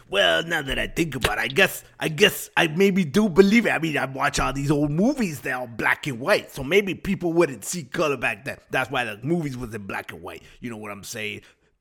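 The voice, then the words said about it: Put-on New York accent. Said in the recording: “New York Tony ... I don't know what happened to my voice there. I don't know what accent that is anymore.”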